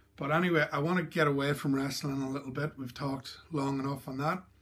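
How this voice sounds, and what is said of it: Irish accent. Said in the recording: “as you can tell, even though I'm living in Australia, I'm um, born in Ireland and I've got that Irish accent”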